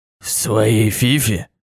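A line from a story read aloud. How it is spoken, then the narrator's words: Snorting. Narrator (Russian): хмыкнул Фаци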